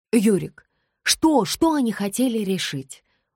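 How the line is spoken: Exclaimed. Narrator (Russian): воскликнула Даша

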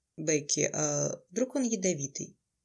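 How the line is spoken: Uncertain. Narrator (Russian): Неуверенно заметил Трей

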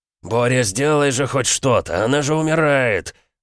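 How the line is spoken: Wounded-animal roar. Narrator (Russian): Раненым зверем рычал император

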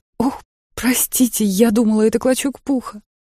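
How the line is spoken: Exclaiming. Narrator (Russian): воскликнув

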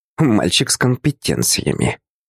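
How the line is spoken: Snorting woman. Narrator (Russian): снова фыркнула секретарша

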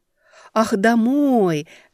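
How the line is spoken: Happy, smiling. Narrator (Russian): радостно улыбнулась я

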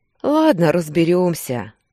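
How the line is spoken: Sigh. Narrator (Russian): вздохнул Кирилл

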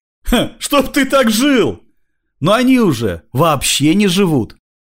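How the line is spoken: Laughing. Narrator (Russian): рассмеялся

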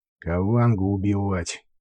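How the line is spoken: Through gritted teeth. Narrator (Russian): процедил сквозь зубы Джек

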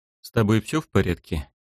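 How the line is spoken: Quiet. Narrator (Russian): тихо произнес я

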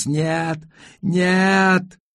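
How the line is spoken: Screaming at full voice. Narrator (Russian): завопила во весь голос

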